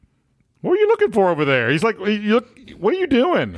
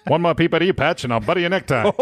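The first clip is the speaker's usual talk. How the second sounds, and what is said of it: Old-timey New York gangster accent. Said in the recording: “old-timey New York gangster accent”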